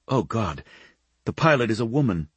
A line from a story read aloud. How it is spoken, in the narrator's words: she said anxiously